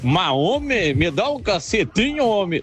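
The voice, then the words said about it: Put-on southern Brazilian accent. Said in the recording (Portuguese): “a gente ouve vários sotaques, né? ... Muito desse lá do Sul.”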